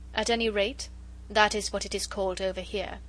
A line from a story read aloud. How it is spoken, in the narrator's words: she said dryly